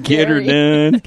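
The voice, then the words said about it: Put-on hick accent. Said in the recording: “that hick accent”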